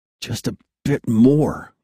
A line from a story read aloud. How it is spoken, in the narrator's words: he said through gritted teeth